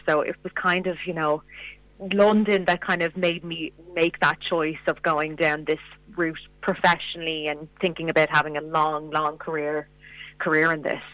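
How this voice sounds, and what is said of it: Irish accent. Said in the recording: “that's why I have the Irish accent”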